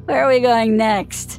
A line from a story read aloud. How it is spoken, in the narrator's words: He slurred